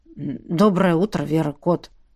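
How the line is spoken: Slightly hoarse greeting. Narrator (Russian): Хрипловатым голосом поздоровался Олаф

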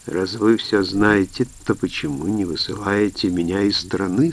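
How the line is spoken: Plain question. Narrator (Russian): спросил Малько

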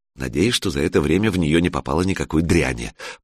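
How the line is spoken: Muttering in Russian. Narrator (Russian): по-русски пробормотала Алена

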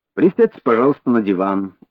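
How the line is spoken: Calm. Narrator (Russian): спокойно предложил Холмс

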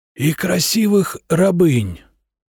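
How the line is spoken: Fading weak voice. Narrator (Russian): угасающим голосом произнес Эйнар

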